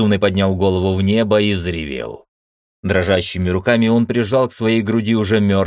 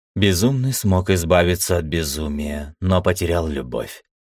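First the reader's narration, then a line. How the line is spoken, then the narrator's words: Sad. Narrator (Russian): грустно сказала Света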